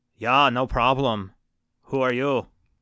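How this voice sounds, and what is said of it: Put-on Austrian accent. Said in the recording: “That's my Austrian accent. I'm pretty good at accents.”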